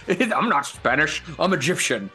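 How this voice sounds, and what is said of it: Imitated Scottish-accented voice. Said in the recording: “a fucking Scottish accent, because Sean Connery doesn't do accents”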